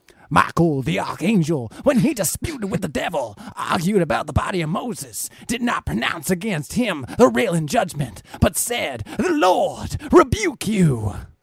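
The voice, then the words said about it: Exaggerated preacher voice. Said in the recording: “Should I do this with like a super preacher voice?”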